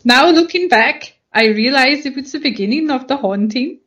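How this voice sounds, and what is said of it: Slips into a put-on foreign accent. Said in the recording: “She went a little bit Bangladeshi at the end there. ... Scandinavian.”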